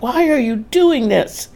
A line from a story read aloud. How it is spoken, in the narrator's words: pleaded